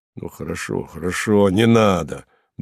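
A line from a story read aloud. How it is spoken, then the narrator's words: Annoyed muttering. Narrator (Russian): бормотал Харлов, как бы с досадой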